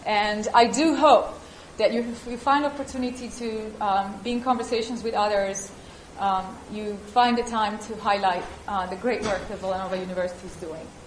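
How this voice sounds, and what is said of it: Italian accent. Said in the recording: “I have an accent. I was made in Italy.”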